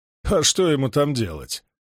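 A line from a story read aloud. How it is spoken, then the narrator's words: Chuckling soldier. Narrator (Russian): хохотнул эсэсовец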